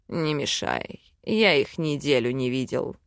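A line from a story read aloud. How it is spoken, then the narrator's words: Demon growling. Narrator (Russian): рыкнул демон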